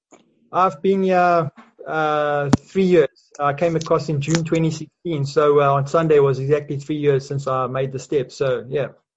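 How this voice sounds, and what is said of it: South African accent. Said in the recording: “that's a South African accent.”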